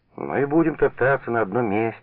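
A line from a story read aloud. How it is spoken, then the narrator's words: Irritated. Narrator (Russian): раздраженно заговорил Юра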